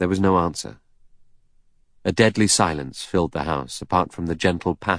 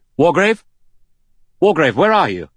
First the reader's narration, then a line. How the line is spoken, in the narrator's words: Armstrong called out loudly